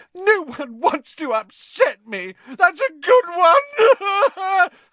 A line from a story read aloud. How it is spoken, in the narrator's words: howled Myrtle